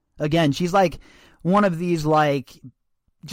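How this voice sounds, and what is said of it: Usual voice. Nothing is said of it.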